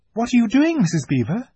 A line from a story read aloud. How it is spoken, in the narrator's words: exclaimed Susan